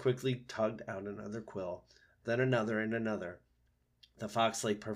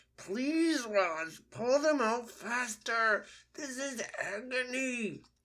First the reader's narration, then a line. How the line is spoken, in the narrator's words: The fox winced in pain and said through his teeth